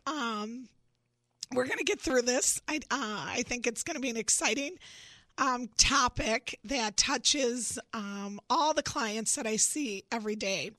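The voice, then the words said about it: Congested voice from a cold. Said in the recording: “As you can tell, I have a cold.”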